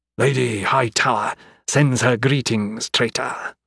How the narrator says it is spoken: Melkor growled

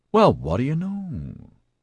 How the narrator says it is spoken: he muttered

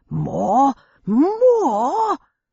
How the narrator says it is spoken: Bumbles yelling

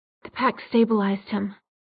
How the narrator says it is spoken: Jocelyn was saying in an exhausted voice

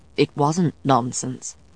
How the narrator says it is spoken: he said calmly

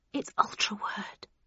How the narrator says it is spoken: I breathed

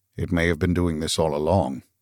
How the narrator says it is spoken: murmured Arthur

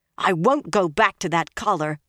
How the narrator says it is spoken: Egwene said fiercely

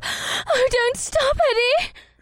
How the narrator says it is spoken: She panted into my mouth

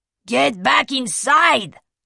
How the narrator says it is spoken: Blanco bellowed at him

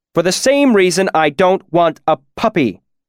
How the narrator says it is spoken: Elodin shouted

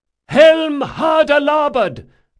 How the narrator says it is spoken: Drakasha shouted

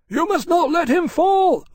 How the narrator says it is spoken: Lawrence shouted, horrified

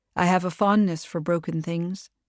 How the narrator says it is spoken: he said

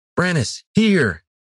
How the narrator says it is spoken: Iridan shouted

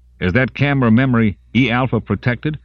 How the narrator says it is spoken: Simon asked sharply

